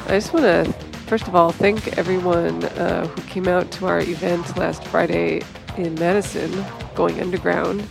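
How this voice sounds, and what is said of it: Voice affected by a cold. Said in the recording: “apologize for my voice here tonight. I've got a bit of a cold.”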